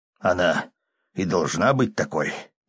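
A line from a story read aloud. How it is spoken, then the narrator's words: Hoarse, catching breath. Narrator (Russian): прохрипел, переводя дыхание, клирик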